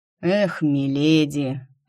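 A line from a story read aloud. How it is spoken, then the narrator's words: Upset sigh. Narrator (Russian): огорченно вздохнул Наран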